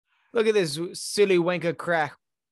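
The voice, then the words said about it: Weak attempt at Australian accent. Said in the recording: “those Aussies always saying ... I can't do accents”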